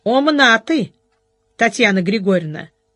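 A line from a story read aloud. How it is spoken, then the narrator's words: Amused snort. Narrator (Russian): хмыкнул Ольшанский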